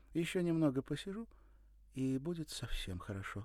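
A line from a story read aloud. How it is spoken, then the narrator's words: Uncertain. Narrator (Russian): добавила неуверенно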